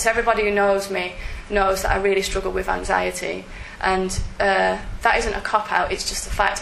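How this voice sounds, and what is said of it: Northern English accent. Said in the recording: “sound a bit northern. ... I'm almost proud of my accent”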